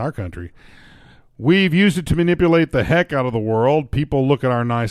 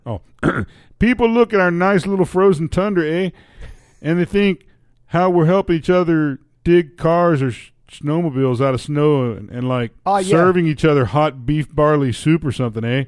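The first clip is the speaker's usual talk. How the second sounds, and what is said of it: Put-on Canadian accent. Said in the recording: “I'm speaking from the position of the Canadian here ... you're not using the accent”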